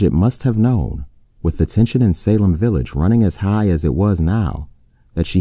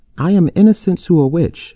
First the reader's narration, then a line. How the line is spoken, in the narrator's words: she shouted